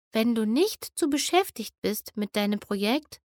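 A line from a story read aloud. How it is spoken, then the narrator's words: Gentle. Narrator (German): sagte sanft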